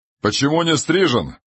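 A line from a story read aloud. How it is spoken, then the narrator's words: Admiral's loud question. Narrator (Russian): громко спросил адмирал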